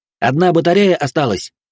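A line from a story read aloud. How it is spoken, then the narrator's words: Shouted. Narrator (Russian): выкрикнул ближайший стрелок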